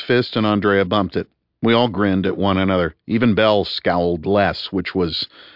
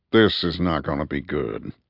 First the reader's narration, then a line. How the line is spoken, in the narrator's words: muttered Top